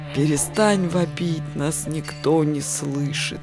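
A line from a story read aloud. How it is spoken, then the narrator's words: Hoarse rasp. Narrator (Russian): прохрипел Лопоухий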